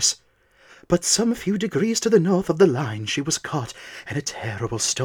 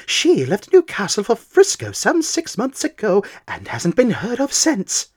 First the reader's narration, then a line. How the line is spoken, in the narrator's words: I exclaimed involuntarily